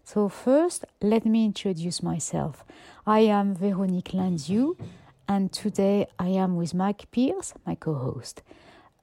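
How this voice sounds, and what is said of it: French accent. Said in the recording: “as you can hear from my accent, I was born and bred in France, in Brittany”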